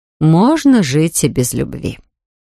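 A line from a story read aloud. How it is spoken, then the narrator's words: Calm mother. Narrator (Russian): Мать проговорила спокойно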